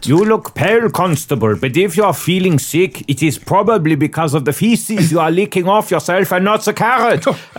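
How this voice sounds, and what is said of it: Put-on German accent. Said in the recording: “I think that I can actually provide a good German accent ... I think that I can actually do a good German accent.”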